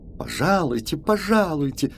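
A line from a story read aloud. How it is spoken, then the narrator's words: Giggling insistence. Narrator (Russian): твердит он, хихикая при каждом слове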